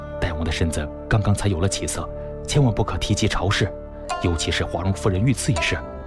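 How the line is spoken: Low, cautioning voice. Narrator (Chinese): 司马屈盖 低声嘱咐道

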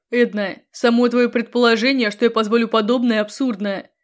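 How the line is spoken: Growling. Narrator (Russian): зарычал Грегордиан

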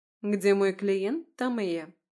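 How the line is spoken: Calm reply. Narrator (Russian): спокойно ответила адвокат

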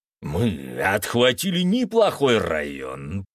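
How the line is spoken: Werewolf growling. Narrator (Russian): прорычал оборотень

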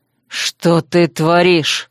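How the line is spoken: Breathless exhale. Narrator (Russian): Выдохнул пленник

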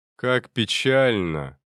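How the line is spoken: Cold tone. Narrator (Russian): холодно произнес Адамантис

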